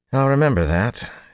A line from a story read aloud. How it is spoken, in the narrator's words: he said dryly